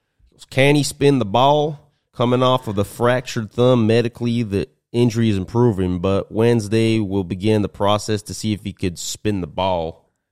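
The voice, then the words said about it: Imitates another person's voice. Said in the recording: “I'll do my best Jerry Jones impression here... That's pretty good, no? Probably bad... it's probably horrific.”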